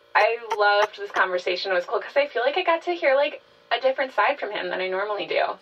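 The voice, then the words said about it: Lower-pitched voice than usual. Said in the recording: “my voice is a little lower than usual today, so I'm trying to really lean into it”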